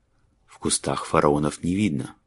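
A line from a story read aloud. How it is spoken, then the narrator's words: Mutter. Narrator (Russian): пробормотал он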